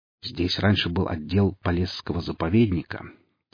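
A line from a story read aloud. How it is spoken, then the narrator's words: Quiet. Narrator (Russian): тихо сказал Зотов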